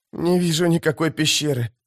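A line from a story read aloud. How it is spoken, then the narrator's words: Hoarse rasp. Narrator (Russian): прохрипела Фелисин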